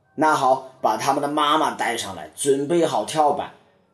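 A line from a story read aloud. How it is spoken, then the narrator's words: Roaring. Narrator (Chinese): 霍克大吼道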